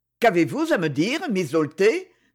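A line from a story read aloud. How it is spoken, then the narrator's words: Icy cold tone. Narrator (French): demanda-t-il d'un ton glacial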